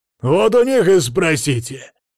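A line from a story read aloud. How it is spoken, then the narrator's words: Barking reply. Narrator (Russian): Рявкнул в ответ тот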